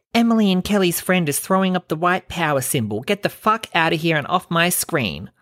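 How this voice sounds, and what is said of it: Imitates another person's voice. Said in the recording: “I'm sure she doesn't talk like that, but look, that's my impression of her, okay? That's how I imagine her in my head.”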